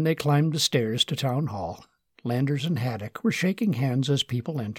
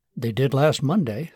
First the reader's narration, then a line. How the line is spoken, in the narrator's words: said Martin